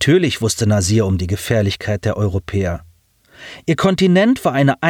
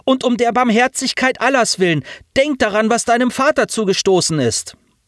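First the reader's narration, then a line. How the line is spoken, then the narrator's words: Female calling after. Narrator (German): rief sie ihm nach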